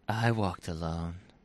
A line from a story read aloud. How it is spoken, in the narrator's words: he says softly